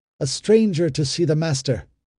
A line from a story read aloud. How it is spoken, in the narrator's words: The man called out